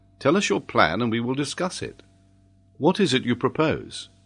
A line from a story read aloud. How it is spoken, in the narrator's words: Ayrton replied in a calm tone of assurance